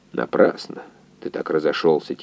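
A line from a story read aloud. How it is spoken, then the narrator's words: Quiet. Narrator (Russian): тихо сказал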